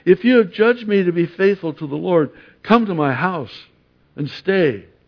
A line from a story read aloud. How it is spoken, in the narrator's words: she begged us, saying